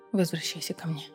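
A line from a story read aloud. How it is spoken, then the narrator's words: Whisper. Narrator (Russian): прошептал он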